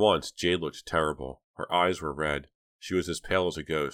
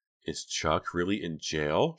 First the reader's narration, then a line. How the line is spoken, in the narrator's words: she whispered to Dina